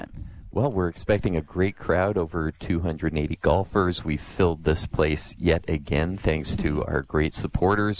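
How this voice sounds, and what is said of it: Smooth, soothing radio voice. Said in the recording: “You got a good looking voice ... Radio voice ... That is a pretty good radio voice ... better than ours ... Soothing.”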